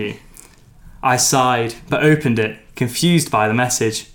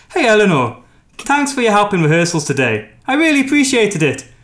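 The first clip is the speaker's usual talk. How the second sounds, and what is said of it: Put-on Irish accent. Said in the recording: “No one else has given you a chance to do your Irish accent.”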